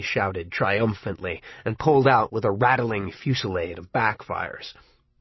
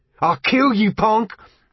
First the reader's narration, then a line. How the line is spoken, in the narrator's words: Ralph roared